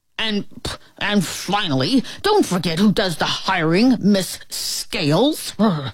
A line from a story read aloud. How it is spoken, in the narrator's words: sputtered the principal